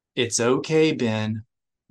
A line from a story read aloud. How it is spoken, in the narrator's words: Mara said in a soothing voice